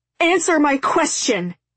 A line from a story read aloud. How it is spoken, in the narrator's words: Zoe shouted